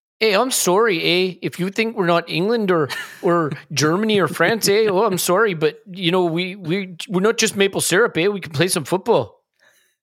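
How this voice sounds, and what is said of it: Put-on Canadian accent. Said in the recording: “Is how a Canadian person. ... I can do a Canadian accent ... I didn't know Scotland qualified for the World Cup.”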